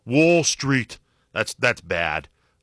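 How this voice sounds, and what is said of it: Imitates another person's voice. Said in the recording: “my Bernie impersonation”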